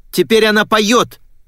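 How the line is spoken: Shouted out. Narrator (Russian): выкрикнула я

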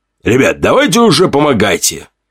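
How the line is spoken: Sharp shout. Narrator (Russian): Прикрикнул Тортик

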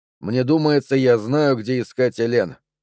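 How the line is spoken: Plain. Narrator (Russian): сказал я

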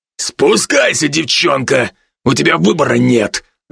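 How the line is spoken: Growled by a man. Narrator (Russian): рыкнул другой мужчина

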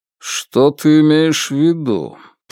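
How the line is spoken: Hollow, muffled male voice. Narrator (Russian): произнес он глухо

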